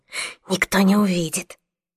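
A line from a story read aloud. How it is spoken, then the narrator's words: Whisper after swallowing. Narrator (Russian): проглотив попкорн, прошептала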